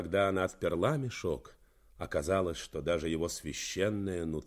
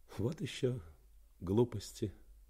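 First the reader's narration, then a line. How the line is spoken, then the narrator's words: Mutter with slight smile. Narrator (Russian): Слегка улыбнувшись, она пробормотала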